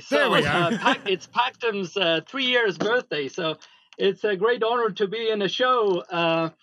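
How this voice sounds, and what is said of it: Estonian-accented English. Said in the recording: “I detect an accent ... From Estonia”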